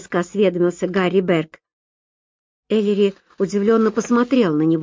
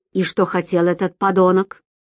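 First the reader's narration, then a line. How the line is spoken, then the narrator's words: Growled. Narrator (Russian): прорычал Берг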